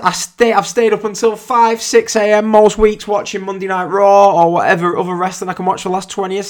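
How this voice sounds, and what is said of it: English accent. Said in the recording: “unless you can't tell by my accent, I'm English”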